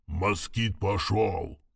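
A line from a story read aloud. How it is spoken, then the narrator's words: Distant hoarse voice. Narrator (Russian): донесся хриплый голос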